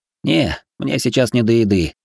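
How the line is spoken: Tired dismissal. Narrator (Russian): отмахнулся я устало

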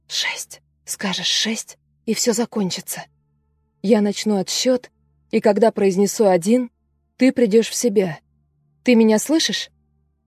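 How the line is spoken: Whisper into ear. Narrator (Russian): Элизабет склонилась над ухом пациентки и прошептала

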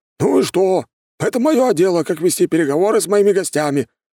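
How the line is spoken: Snort then yell. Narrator (Russian): фыркнул он и заорал

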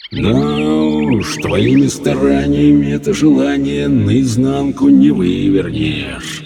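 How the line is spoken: Gloomy drawl. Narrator (Russian): уныло протянул джин

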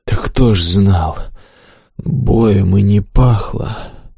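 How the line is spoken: Hoarse excuse. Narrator (Russian): Сипло оправдался кабан

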